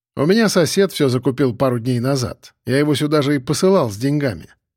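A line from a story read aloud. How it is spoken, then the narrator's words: Plain. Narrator (Russian): ответил я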